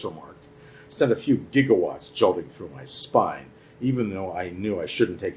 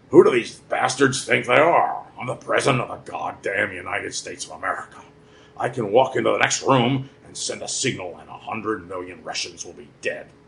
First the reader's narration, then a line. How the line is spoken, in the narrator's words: he had said to me with growling ire